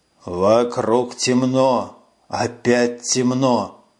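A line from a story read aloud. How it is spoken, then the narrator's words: Hoarse wheezing. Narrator (Russian): хрипел голос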